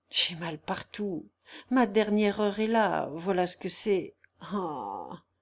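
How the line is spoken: Sighing sick man. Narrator (French): soupira le malade

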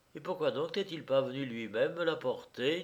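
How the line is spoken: Plain. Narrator (French): dit-elle

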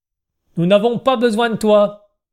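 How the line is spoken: Rather harsh. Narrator (French): dit Camis d'un ton assez dur

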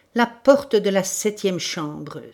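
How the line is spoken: Exclamation. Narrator (French): s'écria le chef de la sûreté

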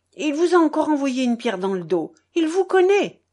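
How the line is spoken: Children exclaiming. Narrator (French): s'écrièrent les enfants

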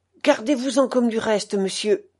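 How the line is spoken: Two footmen exclaiming. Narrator (French): s'écrièrent les deux laquais

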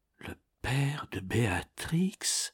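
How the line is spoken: Unintelligible murmur, knight. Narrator (French): murmura d'une voix inintelligible le chevalier

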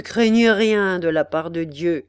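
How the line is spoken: Sneering. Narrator (French): dit Hackett en ricanant

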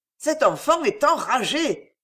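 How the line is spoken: Distressed exclamation. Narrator (French): s'écria le curé d'un air désolé

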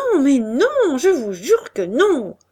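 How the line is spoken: Stammering. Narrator (French): balbutiant

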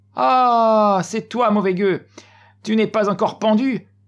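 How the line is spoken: Laughing shout. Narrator (French): L'autre alors se mit à rire, en criant

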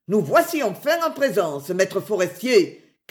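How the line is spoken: Man shouting. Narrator (French): cria cet homme, qui n'était autre que Geoffroy

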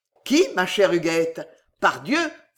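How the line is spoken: Kindly teasing exclamation. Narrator (French): s'écria Pardéian dont l'œil s'illumina d'une flamme de bonté, pour ainsi dire blagueuse

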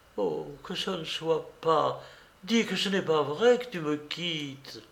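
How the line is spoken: Sobbing, moaning plea for help. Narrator (French): des sanglots encore, des gémissements, des appels au secours, comme si elle lui voyait un couteau dans les mains

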